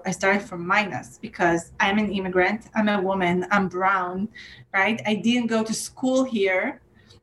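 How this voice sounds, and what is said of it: Non-native English accent. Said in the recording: “I have an accent. My English is not perfect.”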